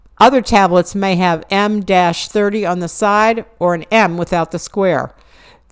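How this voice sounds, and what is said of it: Southwest Pennsylvania accent. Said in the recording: “my accent. I'm from Southwest Pennsylvania.”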